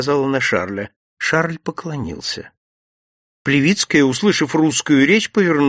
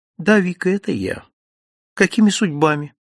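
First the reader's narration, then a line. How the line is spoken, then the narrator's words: Calm, indifferent reply. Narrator (Russian): спокойно, даже равнодушно, без всякого интереса ответила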